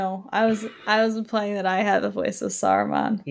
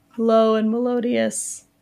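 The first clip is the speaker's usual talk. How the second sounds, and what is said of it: Voice cracks mid-word. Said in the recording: “My voice just cracked when I said melodious.”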